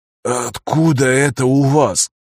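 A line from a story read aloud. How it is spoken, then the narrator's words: Strained, forced out. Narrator (Russian): с трудом выдавил Трой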